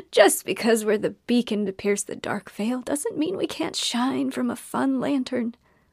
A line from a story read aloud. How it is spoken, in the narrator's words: she cackled and said